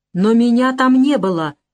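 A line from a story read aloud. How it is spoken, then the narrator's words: Near-desperate exclamation. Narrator (Russian): почти с отчаянием воскликнул я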